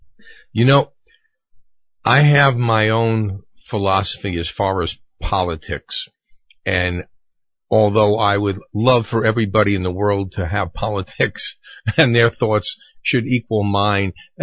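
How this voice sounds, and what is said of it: Strained, failing voice. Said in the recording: “my voice is about to go”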